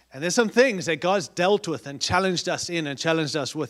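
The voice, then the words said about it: Speaks with a noticeable accent. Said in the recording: “I know I have an accent, but I'm talking to us as Americans”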